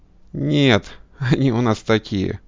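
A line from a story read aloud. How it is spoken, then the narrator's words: Laughing. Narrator (Russian): ответила Бэк, смеясь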